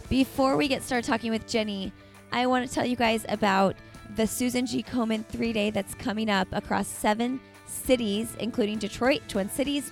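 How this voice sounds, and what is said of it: Hoarse, scratchy, fading voice. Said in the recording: “I have a really sore throat. And I'm very quickly losing my voice... my voice isn't always this scratchy”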